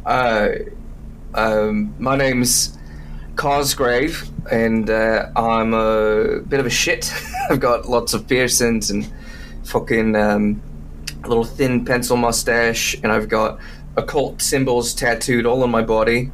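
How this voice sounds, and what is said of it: Put-on character accent, slipping. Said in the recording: “we're going to see if this accent sticks and doesn't go straight Australian by the end of this recording session... That's already happening.”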